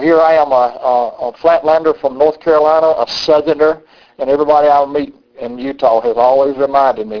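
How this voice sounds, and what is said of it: Southern US accent. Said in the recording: “Oh, I just love your accent. I just love to talk to you. I just love your accent. ... any time people telling me I'm from the South, I get bothered with people telling me about my accent”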